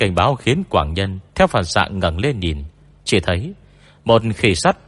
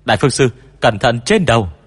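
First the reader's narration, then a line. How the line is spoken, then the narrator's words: Young man's sudden shout. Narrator (Vietnamese): phương sĩ trẻ bỗng hét lên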